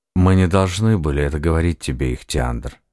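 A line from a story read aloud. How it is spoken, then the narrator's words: Calm. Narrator (Russian): спокойно проговорил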